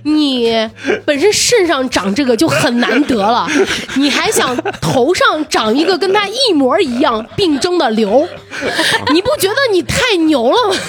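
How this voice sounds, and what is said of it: Imitating her older brother's voice. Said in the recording (Chinese): “模仿他哥模仿的像不像？戏足不足？”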